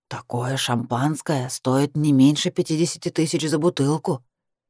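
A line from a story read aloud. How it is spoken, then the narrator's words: Knowing whisper. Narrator (Russian): шепнула она мне с видом профессионала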